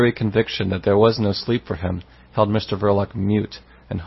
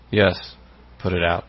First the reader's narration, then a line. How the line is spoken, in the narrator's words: he said, at last, in a hollow tone